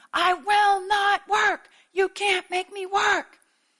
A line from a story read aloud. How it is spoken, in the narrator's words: He kept screaming the same thing